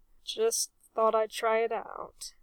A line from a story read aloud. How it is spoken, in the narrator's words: mumbled Reg